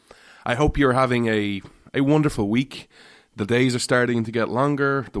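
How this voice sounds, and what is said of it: Irish accent. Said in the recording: “This Irishman ... where you come for the accent”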